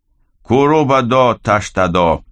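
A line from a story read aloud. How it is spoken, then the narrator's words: Shouted. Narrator (Russian): закричал Нандир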